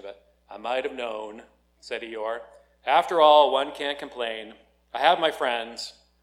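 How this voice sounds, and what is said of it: Gloomy cartoon donkey character voice. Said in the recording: “I'm going to try to do my Eeyore impersonation,”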